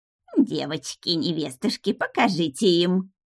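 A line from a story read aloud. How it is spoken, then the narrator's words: Lisping giggle. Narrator (Russian): хихикнула шепелявая болотница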